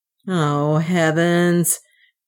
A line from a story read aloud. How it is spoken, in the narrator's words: groaned Leonard